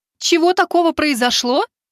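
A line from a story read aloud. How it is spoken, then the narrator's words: Exclamation. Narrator (Russian): воскликнула девушка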